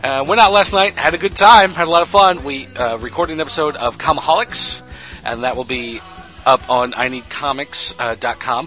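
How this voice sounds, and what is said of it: Rough, sore-throat voice. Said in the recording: “you can probably tell by the sound of my voice that I have a bit of a sore throat”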